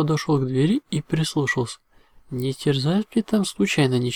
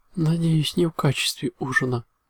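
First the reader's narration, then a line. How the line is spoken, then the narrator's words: Muttered under breath. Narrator (Russian): буркнул себе под нос Рапидус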